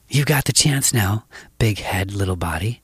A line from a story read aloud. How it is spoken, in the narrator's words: my brother whispered